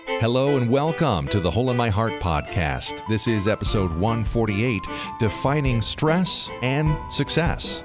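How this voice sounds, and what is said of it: Polished professional radio voice. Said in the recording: “that most professional radio voice”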